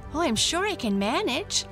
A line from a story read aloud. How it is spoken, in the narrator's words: said cheerfully